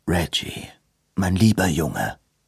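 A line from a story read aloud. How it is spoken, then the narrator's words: Sighed. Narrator (German): seufzte George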